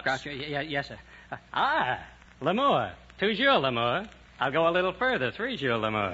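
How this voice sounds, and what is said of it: Groucho Marx impression. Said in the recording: “Be a comedian like Groucho Marx.”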